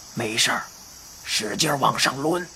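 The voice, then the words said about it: Quiet, hushed old man's voice. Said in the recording (Chinese): “怪老头小声说”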